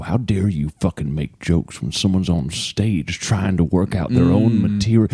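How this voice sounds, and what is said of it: Old man voice. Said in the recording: “The quality of this old man voice is...”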